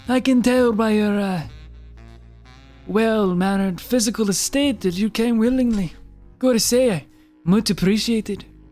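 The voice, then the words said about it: Put-on French accent. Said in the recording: “What is that, like a mix of Italian and, like... ... Why are you judging my accents? ... one of the most authentic, best accents I've ever heard from a human ... It's French!”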